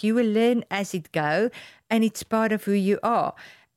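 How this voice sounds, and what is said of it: Non-native English accent. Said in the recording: “me with the accent and me with the unperfect English”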